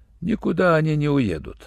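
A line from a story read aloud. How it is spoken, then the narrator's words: Calm, doctor. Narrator (Russian): спокойно сказал врач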